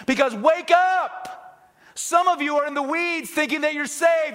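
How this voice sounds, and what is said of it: Screaming, shouting preacher. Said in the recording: “I'm screaming.”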